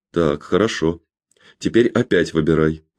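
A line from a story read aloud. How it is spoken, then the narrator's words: Calm. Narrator (Russian): спокойно сказал Роджер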